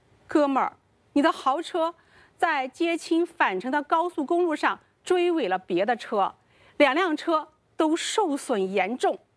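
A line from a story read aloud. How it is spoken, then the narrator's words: Tearful voice. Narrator (Chinese): 陈亮带着哭音说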